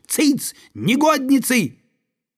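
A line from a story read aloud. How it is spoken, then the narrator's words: Shout. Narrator (Russian): он крикнул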